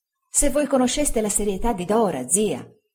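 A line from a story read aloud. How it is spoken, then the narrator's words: Exclaimed. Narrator (Italian): esclamai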